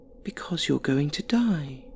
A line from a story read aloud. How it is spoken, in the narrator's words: She was still heaving and sobbing, said very softly